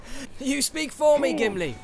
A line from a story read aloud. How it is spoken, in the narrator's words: laughed Legolas